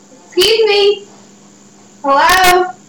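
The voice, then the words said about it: Raised calling voice, not screaming. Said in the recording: “Not screaming, but trying to get his attention.”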